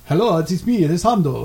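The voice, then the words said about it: Latin-accented character voice. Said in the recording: “You sounded like a Latin.”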